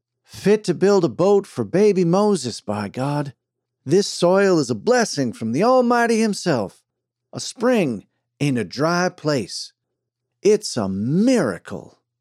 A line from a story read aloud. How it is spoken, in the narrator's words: The preacher exclaiming